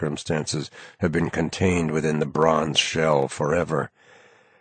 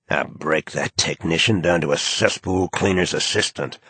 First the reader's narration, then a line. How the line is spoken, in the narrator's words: snarls the socially ambitious young major in charge of ceremony protocol